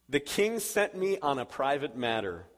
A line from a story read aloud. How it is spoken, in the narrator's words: David said